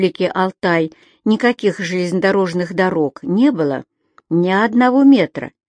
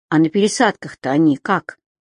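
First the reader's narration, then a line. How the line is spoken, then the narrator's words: Timid question. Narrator (Russian): робко спросила Женя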